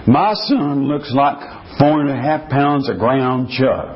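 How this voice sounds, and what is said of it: Put-on Texas accent. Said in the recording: “I'm doing the best Texas accent.”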